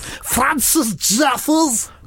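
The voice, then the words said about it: Put-on Scouse accent. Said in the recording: “say in a Scouse accent ... peak Scouse”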